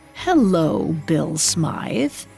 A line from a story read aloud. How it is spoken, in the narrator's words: said the woman in a rasping voice